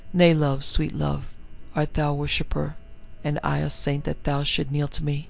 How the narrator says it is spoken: she asked him tenderly

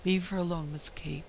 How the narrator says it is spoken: whispered the nurse at last

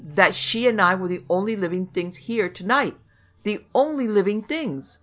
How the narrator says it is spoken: he snarled desperately

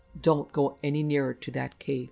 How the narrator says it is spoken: the man said

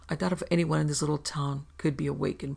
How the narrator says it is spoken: Pervasant told him evenly

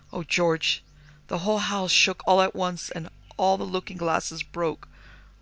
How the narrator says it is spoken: wailed his mother

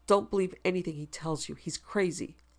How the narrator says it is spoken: she said angrily

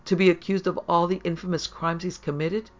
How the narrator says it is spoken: Harry cried

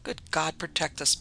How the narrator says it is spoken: muttered one

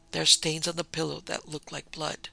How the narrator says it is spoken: she called to Jordan in a low voice

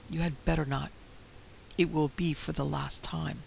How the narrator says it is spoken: some cold voice seemed to whisper in her ear

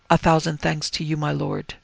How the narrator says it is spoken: Yoshida said with rare humility, his voice barely audible

